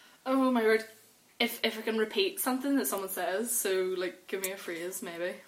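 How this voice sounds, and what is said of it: Usual voice. Nothing is said of it.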